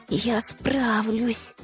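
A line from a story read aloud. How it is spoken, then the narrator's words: Quiet self-encouragement. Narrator (Russian): тихонько приободрила себя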